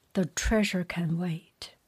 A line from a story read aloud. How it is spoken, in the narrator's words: Achilles said